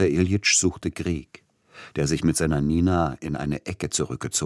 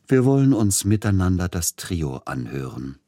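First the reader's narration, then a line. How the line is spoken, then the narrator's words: Plain. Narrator (German): sagte er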